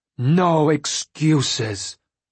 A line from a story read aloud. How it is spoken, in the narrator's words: Dwalia snarled